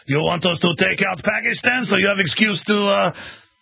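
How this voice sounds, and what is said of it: Put-on Russian accent. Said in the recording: “I'm giving a Russian accent”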